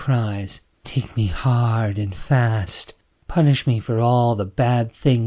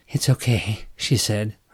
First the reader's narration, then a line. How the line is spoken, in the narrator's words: her voice breathless